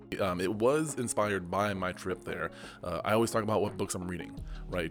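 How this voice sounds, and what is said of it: Hoarse, strained voice. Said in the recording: “I've lost my voice... my voice is gone”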